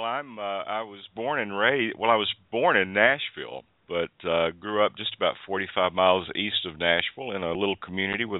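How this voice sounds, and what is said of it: Southern American accent. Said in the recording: “by your accent, you're definitely Southern”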